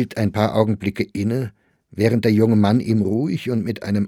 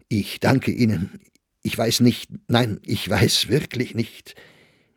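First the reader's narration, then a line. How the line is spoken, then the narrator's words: Slightly moved voice. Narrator (German): Mit etwas bewegter Stimme antwortete Sachsberger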